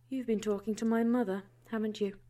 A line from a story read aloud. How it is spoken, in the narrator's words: She asked, her tone even and unchanging